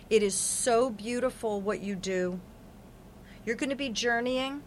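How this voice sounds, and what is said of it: Choked-up, emotional voice. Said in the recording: “I'm all choked up.”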